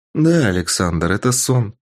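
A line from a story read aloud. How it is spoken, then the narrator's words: Calm speech. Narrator (Russian): спокойно сказала классный руководитель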